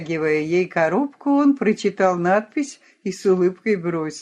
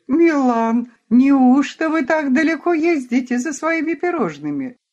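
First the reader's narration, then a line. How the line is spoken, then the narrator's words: Charming laughter. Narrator (Russian): Она очаровательно расхохоталась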